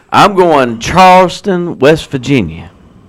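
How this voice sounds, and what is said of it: Poor put-on West Virginia accent. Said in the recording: “That was a terrible West Virginia accent ... It was horrible.”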